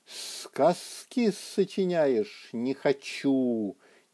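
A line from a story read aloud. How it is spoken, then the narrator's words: Displeased faint hiss. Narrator (Russian): недовольно прошипел из норы уже не очень сильный сквозняк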